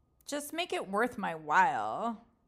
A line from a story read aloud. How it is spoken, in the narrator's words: Mimi said sarcastically